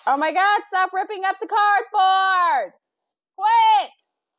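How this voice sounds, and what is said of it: Yelling loudly. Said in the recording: “I'm yelling in your ear”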